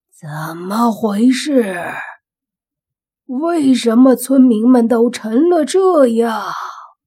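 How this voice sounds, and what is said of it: Slightly hoarse character voice. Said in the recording (Chinese): “一个略微沙哑的声音说”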